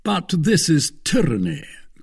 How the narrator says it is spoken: cried, in very good French, though with a foreign accent

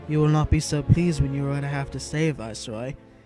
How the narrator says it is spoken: she said flatly, cutting him short

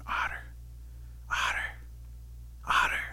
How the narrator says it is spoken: Rabbit starts whispering over at Otter

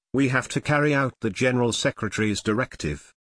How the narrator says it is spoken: Ma Chito firmly said

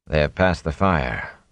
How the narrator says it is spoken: Lan said calmly

